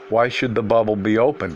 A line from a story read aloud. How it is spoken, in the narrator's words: he replied